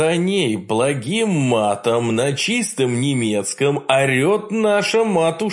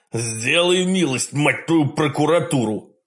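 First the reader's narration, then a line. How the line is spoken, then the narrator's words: Growl in normal voice, no falsetto. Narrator (Russian): прорычал государь совершенно нормальным голосом, безо всякого фальцета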